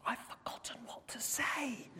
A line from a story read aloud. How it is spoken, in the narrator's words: Joseph whispered loudly to the wise man